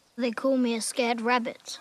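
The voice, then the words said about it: Boy speaking with British accent. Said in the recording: “Why is the boy English? ... Why did it sound like he had a British accent?”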